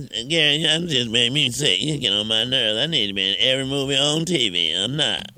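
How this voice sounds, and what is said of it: Imitates another person's voice. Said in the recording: “Give me that Lunell impression.”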